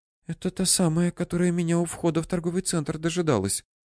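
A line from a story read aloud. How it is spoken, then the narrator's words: Whisper. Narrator (Russian): прошептала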